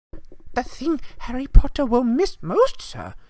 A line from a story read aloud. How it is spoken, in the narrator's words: squeaked Dobby